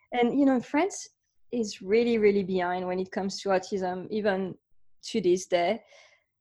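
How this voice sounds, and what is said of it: French accent. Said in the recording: “I grew up in France. So you can hear my accent.”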